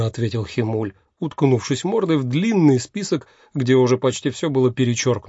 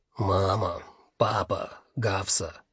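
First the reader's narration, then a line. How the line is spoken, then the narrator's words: Muttering. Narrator (Russian): бормотал он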